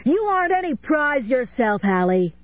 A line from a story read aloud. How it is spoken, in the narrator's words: he yelled back